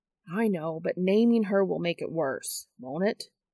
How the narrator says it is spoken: Dean sighs

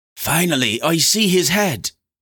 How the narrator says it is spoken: Odette exclaimed

